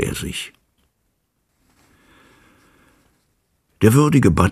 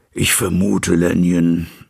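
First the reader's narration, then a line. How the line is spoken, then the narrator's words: Plain. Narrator (German): sagte er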